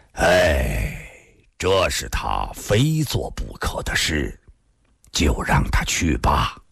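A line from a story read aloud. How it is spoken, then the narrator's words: Sudden sigh, old man. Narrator (Chinese): 孙老先生突然叹了口气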